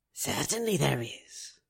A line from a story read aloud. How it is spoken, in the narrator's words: whispered Gorming with a grin